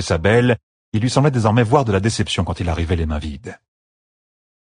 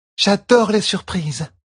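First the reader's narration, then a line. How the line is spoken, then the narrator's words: Exclaimed. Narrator (French): s'écria Tuon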